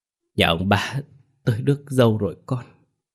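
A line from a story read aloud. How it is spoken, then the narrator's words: Choked with emotion. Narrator (Vietnamese): Bà nghẹn ngào nói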